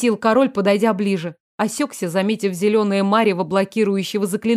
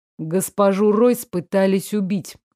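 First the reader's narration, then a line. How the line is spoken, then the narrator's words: Even, level voice. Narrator (Russian): ровным голосом поведал Фредерик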